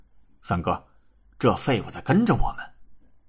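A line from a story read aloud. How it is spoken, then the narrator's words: Furious. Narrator (Chinese): 李仲 顿时大怒道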